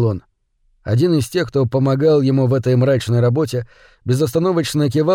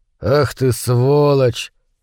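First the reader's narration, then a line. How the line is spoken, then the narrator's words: Through gritted teeth. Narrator (Russian): процедил сквозь зубы Кип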